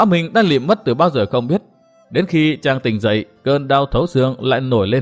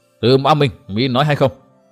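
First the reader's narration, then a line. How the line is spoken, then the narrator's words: Stern voice. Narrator (Vietnamese): Hội chủ nghiêm giọng nói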